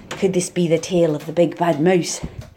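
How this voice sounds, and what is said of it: Scottish accent, Shirley Henderson's Gruffalo's Child. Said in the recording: “I have to read the part of The Gruffalo's Child in Shirley Henderson's sort of Scottish accent”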